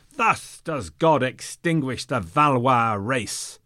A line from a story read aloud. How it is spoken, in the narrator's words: simultaneously, they all cried